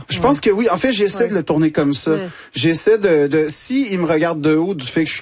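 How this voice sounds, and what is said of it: Québécois French accent. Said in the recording (French): “l'accent québécois ... tu le dis avec cet accent”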